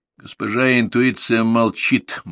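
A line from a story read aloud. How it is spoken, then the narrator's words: Master replying gloomily. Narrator (Russian): мрачно ответил хозяин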